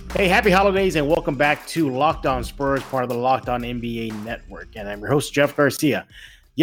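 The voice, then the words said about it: Congested, stuffy-nosed voice. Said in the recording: “I'm still suffering through a cold ... I sound a little congested”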